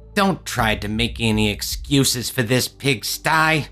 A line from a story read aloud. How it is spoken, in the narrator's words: The new purple skin head snapped